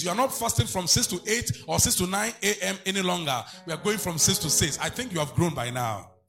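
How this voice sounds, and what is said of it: Stern, commanding military-style delivery. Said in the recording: “how are you talking like a military man?”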